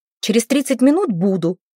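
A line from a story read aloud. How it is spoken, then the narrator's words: Barked into phone. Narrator (Russian): рявкнула в трубку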